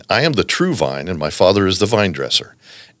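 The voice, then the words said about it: Rich radio announcer voice. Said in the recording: “you have the amazing radio voice”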